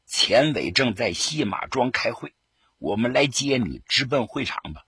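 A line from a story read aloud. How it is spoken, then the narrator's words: Lowered voice. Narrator (Chinese): 恽代英便压低嗓门对他说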